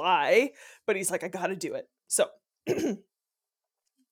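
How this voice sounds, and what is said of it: Usual voice. Nothing is said of it.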